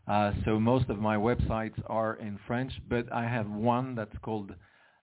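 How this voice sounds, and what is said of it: Swiss accent in English. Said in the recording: “as you may have heard from my accent, I'm Swiss, but I live in France”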